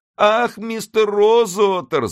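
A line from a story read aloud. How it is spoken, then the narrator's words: Sobbing. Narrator (Russian): зарыдала она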